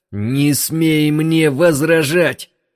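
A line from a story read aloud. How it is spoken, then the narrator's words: Shouting. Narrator (Russian): закричал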